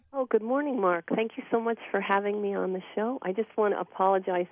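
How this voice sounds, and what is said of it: Slightly raspy voice. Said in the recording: “my voice is going to be a little raspy. I have a cold”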